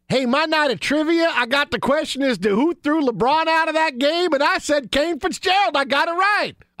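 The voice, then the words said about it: Put-on Southern American accent. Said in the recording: “I don't know why I have the Southern accent.”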